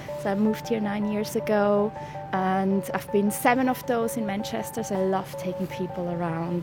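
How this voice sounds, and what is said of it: Swiss accent, not British. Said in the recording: “I do not sound British in the slightest. It's because I'm originally from Switzerland.”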